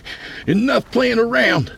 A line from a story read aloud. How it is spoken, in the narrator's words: he cried